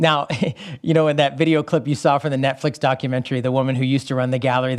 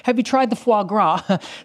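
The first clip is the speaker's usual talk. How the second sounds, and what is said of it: Put-on British accent. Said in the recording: “Sorry, my British accent”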